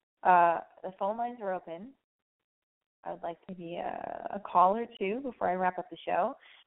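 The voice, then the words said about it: Raspy, strained voice. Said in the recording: “my voice is raspy ... I think I'm losing my voice”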